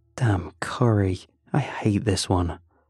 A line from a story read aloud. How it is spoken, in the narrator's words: one muttered